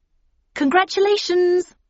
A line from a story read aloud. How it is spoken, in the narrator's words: I called out